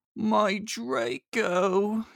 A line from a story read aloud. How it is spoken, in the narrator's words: he moaned